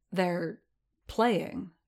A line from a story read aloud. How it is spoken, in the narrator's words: Din murmured